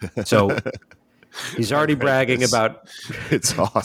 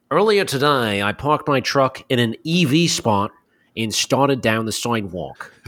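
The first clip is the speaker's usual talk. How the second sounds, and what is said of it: Put-on Australian accent. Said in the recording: “New Zealand and Australian accents ... I'm using the chat Smoko to permute this guy's accent through my voice ... I'm sorry if this is grating at people's ears”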